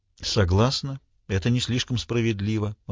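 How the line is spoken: Level, even voice. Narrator (Russian): ровным голосом сказала Марго

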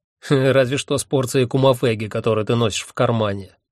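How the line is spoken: Snorting. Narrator (Russian): фыркнул Куганна

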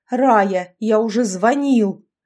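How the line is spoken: Father's angry bark. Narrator (Russian): рявкнул отец семейства

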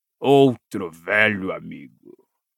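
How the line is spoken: Growl. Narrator (Portuguese): rosnou Moody

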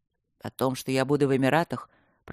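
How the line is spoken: Gloomy. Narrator (Russian): продолжил Люк мрачно

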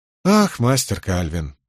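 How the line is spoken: Sighing. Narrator (Russian): вздохнул Кензи

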